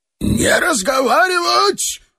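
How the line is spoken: Yelling. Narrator (Russian): завопил Лех

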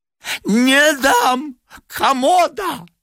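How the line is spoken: Shrill old woman. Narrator (Russian): визгливо сказала старуха

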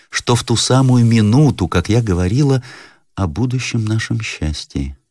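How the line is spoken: Sad. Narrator (Russian): прибавила она, покачав печально головою

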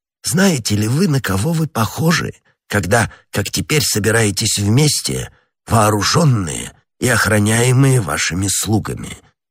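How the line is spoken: Plain. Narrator (Russian): спросил кардинал

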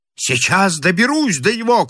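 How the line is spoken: Shouted. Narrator (Russian): крикнул он Генфрию

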